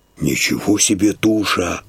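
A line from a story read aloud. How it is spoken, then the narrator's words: Muttering. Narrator (Russian): бормочет сосед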